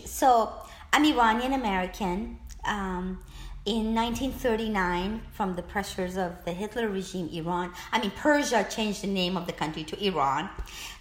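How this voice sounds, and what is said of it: Noticeable foreign accent. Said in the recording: “you have a marvelous accent”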